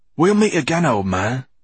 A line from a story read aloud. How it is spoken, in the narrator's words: he whispered